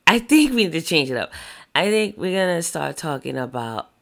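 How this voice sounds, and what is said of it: Deep, sexy jazz-style voice. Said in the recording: “sexy voice ... I have a deep voice. ... Like a jazz voice, Harlem jazz artist.”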